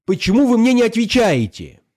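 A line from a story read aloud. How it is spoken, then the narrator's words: Very loud shout. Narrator (Russian): Совсем громко закричала Алиса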